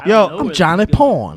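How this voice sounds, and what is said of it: Over-enunciated rock star voice. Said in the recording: “what kind of accent was that? ... like a rock star over enunciating is what it sounded like”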